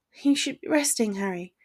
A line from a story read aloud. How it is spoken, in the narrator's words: she mumbled guiltily